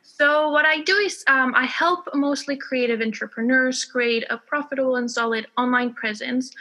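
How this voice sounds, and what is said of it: Spanish speaker with slight American accent. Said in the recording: “I'm originally from Spain. You might hear a bit of an American accent ... I don't have a British accent that you'd expect”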